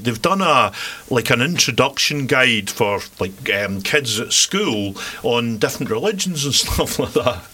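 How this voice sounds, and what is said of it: Scottish accent. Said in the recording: “I'm probably not even saying it right ... But that's a Scottish accent for you.”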